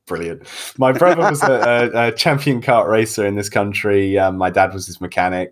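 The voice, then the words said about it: British accent. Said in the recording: “I'm from Great Britain. I'm the accent in this room. ... You guys thought I was Australian.”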